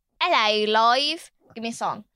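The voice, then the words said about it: Put-on British accent. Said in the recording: “That's me getting my British accent.”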